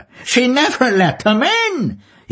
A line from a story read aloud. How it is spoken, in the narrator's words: He cried again through his laughter